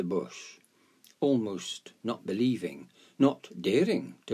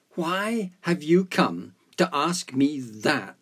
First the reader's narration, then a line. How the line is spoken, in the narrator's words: cried the bush